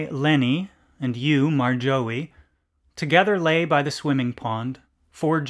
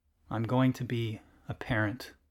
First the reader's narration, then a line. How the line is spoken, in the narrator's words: You muttered, by voice